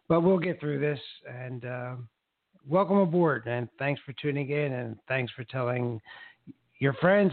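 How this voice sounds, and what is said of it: Slightly raspy voice. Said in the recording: “with a little bit of raspy voice from the Sahara dust”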